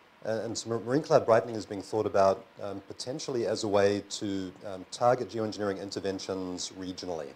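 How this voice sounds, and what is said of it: New Zealand accent. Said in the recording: “I'm from New Zealand originally, don't confuse our accents”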